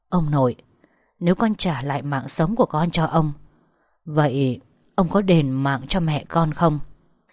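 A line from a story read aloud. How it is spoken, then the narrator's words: Whisper. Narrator (Vietnamese): tiếng thì thầm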